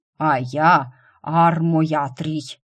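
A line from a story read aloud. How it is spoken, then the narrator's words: Demon's booming drone. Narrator (Russian): прогудел демон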